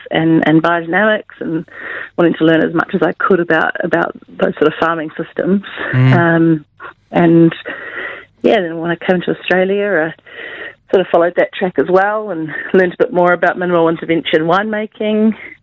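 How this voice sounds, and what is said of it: Speaks with a noticeable accent. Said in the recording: “Oh, minimal. Sorry, that's probably my accent.”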